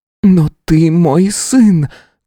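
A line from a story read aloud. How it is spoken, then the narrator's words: Exclaimed as last argument. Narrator (Russian): как последний довод воскликнула Алисия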